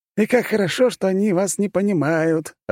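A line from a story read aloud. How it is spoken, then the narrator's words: Laughing. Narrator (Russian): рассмеялся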